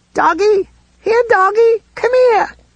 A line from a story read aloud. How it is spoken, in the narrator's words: that voice, which was like chalk squeaking on a blackboard